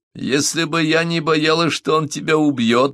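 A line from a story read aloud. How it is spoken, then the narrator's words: Laughing. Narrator (Russian): засмеялась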